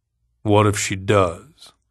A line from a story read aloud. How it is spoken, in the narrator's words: Virgil said in a sullen voice